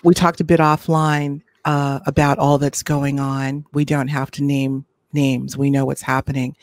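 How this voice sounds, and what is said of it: Strained, fading voice. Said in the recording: “losing my voice. I'm going to clear my throat.”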